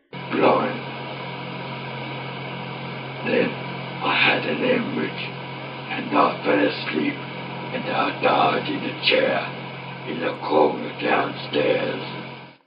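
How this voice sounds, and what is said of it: Scary old man voice. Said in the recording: “That really does sound like a scary old man voice ... It sounds 100% like an old man.”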